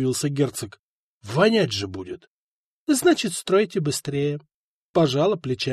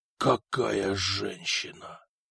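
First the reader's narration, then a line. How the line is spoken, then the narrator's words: Rapturous whisper. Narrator (Russian): восторженно прошептала Игина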